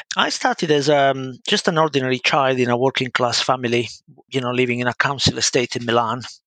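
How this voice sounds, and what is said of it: Italian accent in English. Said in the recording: “As you can spot from my accent, I'm Italian”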